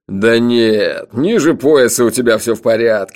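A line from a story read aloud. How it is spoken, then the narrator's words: Laughing loudly. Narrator (Russian): расхохотался Джуфин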